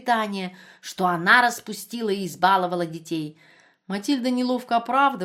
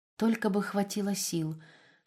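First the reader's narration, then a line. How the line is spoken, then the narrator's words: Whisper. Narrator (Russian): шептала она по ночам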